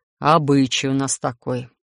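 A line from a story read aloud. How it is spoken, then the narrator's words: Gloomy, dejected. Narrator (Russian): совсем уныло вещает гном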